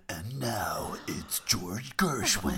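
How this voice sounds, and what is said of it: Dramatic movie trailer announcer voice. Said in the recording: “your cinema trailer voice”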